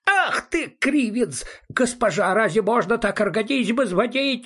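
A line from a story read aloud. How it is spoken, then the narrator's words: Wailing yell. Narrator (Russian): завопил он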